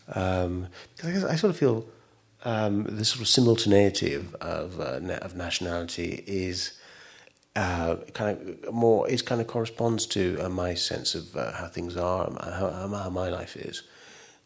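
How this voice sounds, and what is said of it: English accent. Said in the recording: “I do have an English accent.”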